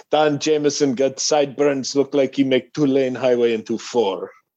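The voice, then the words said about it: Put-on heavy Lebanese accent. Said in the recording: “this Lebanese dude, and he has a heavy accent”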